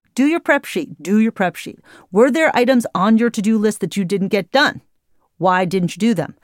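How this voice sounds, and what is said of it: Stern, angry scolding tone. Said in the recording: “I'm not scolding you, though I sound like an angry mom”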